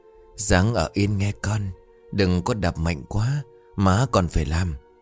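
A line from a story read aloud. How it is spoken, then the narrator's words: Very soft whisper. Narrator (Vietnamese): Bà thì thầm rất khẽ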